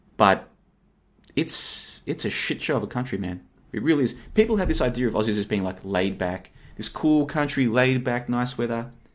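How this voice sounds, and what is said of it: Australian accent. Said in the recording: “I've got a pretty much an Australian accent”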